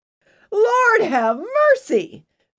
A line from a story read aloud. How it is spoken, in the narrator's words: Mary Dell exclaimed